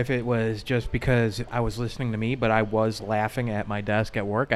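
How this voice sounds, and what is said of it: Thick Chicago accent. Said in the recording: “got a pretty strong Chicago accent ... You got a thick Chicago accent.”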